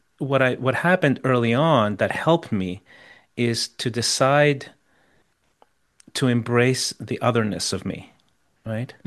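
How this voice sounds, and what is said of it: Chilean accent in English. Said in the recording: “I still have a Chilean accent ... people notice my accent in about 30 seconds, right? Even though I'm pretty fluent.”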